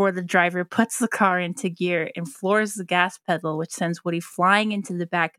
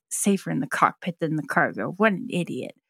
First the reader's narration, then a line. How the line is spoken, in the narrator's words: Woody mutters